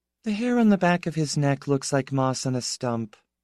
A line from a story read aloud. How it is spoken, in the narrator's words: said Piera, dreamily, with complete lack of feeling